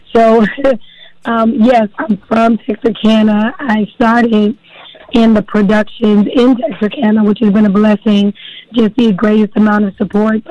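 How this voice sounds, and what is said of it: Hoarse, nearly lost voice. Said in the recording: “excuse my voice... this morning I woke up and it was gone”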